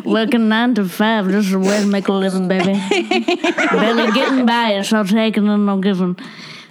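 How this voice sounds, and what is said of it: Sung imitation of another person's voice. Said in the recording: “My famous Dolly Parton impression”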